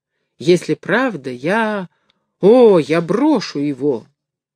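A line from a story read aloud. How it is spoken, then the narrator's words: Joyful cry. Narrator (Russian): Горбун радостно вскрикнул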